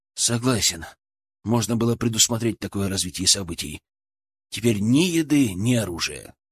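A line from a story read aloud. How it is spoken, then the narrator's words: Sighing. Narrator (Russian): вздохнул Денис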